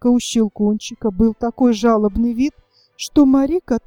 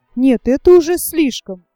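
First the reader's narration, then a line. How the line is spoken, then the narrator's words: Exclaimed. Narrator (Russian): воскликнула госпожа Штальбаум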